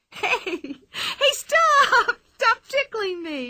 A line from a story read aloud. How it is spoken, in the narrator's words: shrieked Pippi